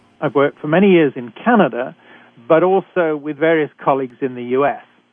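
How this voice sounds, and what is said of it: British accent. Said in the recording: “a physician trained in Britain, as you can tell from my accent.”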